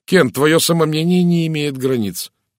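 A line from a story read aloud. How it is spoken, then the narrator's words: Exclamation. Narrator (Russian): воскликнул Розамунд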